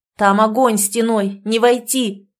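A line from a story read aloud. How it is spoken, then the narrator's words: Frantic shouting. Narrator (Russian): кричал в неистовстве Кирилл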